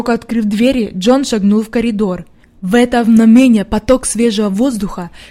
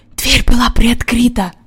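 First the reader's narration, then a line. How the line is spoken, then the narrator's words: Whisper. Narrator (Russian): прошептал Джон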